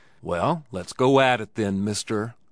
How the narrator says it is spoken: said Johnny, coolly

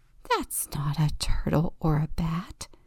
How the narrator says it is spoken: Octopus whispers excitedly

